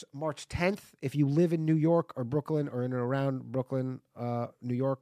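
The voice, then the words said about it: Congested voice from a cold. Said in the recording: “I have a bit of a cold... Apologies if I sound shitty”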